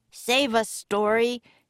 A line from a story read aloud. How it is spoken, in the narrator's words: cried